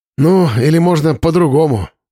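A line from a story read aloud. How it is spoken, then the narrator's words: Sighing. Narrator (Russian): вздохнул Слава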